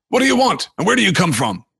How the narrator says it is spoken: asked gruffly

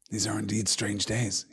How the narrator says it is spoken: he muttered

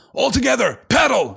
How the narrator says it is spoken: shouted Boromir

